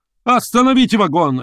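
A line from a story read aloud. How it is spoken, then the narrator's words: Barked by lawyer. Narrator (Russian): рявкнул адвокат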